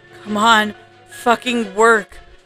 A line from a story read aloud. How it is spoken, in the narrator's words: I exclaimed